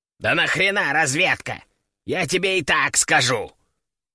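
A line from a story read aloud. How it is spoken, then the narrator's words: Grumbling. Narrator (Russian): Проворчал он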